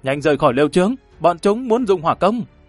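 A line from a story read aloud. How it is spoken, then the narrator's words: Loud alarmed shout. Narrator (Vietnamese): Sắc mặt của hắn biến đổi, dùng tiếng đột quyết thét lớn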